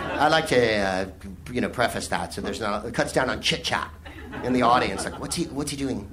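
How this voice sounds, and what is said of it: Usual voice. Nothing is said of it.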